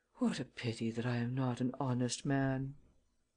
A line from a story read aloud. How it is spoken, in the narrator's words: to Ganimard's great astonishment, I muttered